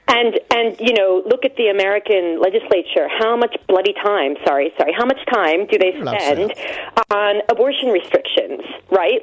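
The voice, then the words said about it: Accent mixing two countries. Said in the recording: “as you can hear by my accent, I've got my foot in two countries.”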